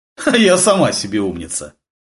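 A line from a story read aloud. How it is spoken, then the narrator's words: Short laugh. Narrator (Russian): хохотнула Татьяна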